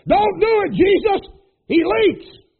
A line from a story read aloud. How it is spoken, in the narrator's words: the boy yelled